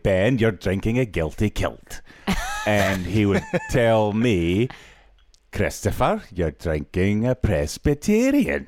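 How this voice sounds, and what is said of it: Put-on Scottish accent. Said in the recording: “in my father's accent ... my father is from Scotland”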